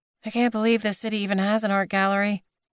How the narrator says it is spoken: Suna mumbled

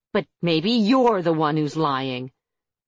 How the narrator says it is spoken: Harper's demon snarled

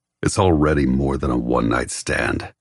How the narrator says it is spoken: After a moment of blistering silence, he says gruffly

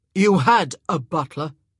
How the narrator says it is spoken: he growled

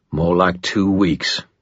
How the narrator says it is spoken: Ebenezer grunted with assurance

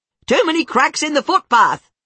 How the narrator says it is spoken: she yells

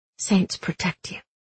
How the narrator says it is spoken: Inej whispered to the unconscious girl

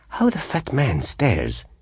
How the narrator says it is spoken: he exclaimed

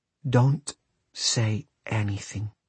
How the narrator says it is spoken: whispered Celia in his ear

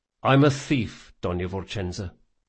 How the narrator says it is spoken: he said quietly

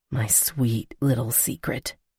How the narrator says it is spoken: he murmured

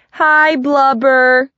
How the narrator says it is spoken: a bunch of kids called out

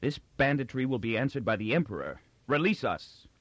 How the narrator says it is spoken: He said fiercely

